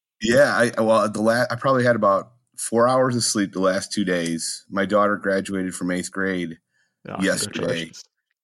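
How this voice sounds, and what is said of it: Raspy voice. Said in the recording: “You're sounding a bit raspy there, mate.”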